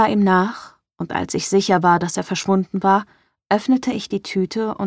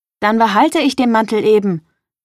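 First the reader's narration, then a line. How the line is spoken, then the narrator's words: Calling after someone. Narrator (German): rief hinterher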